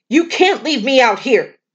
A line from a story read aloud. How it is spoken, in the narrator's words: the hunter shouted